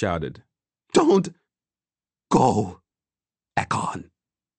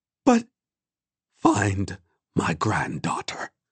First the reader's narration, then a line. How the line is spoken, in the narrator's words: she said calmly